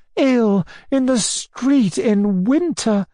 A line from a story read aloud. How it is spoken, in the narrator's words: cried Anna Andreevna